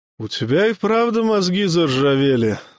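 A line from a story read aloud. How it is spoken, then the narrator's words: Sad sigh. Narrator (Russian): с грустью вздохнул Гюнтер-медик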